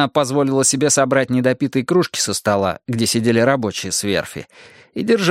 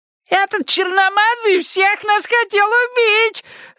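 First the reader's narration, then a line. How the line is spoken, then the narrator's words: Shrieking woman. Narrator (Russian): завизжала дама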